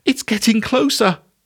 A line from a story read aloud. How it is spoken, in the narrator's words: she exclaimed